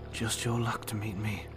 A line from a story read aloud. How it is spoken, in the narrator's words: he said softly